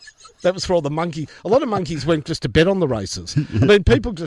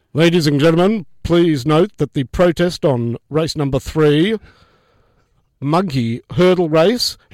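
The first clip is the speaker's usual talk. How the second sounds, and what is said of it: PA announcer voice. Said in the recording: “Can you do the PA announcing that the protest is dismissed?”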